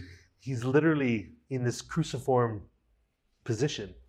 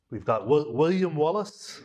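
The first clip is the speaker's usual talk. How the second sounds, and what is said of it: Weak put-on Scottish accent. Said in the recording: “It's my meager attempt at a Scottish accent.”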